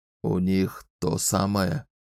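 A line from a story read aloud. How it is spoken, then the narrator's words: Hoarse question. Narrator (Russian): хрипло спросил Эрлинг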